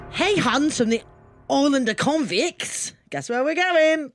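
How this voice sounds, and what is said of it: Exaggerated, strange Australian accent. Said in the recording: “you've had a stroke ... It's an Australian accent.”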